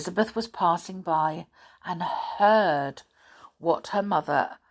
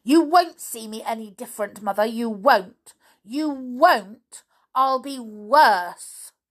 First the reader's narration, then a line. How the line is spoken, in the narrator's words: shouted angrily